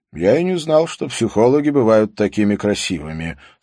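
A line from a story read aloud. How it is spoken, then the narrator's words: Plain. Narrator (Russian): сказал он ей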